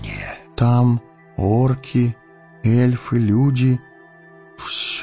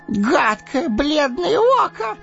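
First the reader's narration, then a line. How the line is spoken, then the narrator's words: Shrieked. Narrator (Russian): взвизгнул он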